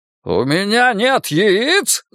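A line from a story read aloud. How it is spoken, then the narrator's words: Yelling. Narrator (Russian): заорал он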